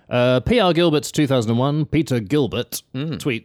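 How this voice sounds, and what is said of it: Newsreader-style voice. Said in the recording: “I'm doing my news voice again”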